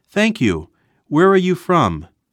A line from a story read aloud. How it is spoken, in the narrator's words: Bob was so glad to hear American English in Japan spoken by a beautiful lady, perhaps from his own country, that he cried out